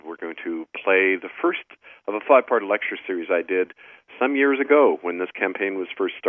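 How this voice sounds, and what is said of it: Sick, strained voice from flu. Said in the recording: “despite my flu bug, which I'm battling ... tell by my voice ... even I find it hard to talk sometimes ... give my voice a rest”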